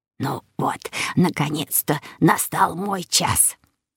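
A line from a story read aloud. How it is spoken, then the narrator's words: Grandfather's whisper. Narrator (Russian): шепнул дедушка Оскар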